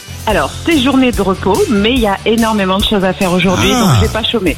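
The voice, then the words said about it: Slight southern French accent. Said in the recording (French): “il y a le petit accent, je reconnais”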